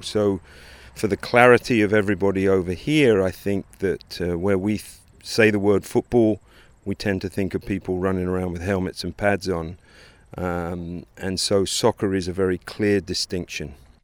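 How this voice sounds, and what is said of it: English accent. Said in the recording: “As you might be able to pick up from his accent, ... grew up in England”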